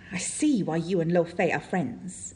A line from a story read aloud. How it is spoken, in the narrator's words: hisses across the table